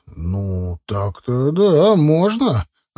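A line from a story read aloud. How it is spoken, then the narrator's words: Uncertain drawl. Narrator (Russian): протянул неуверенно Греков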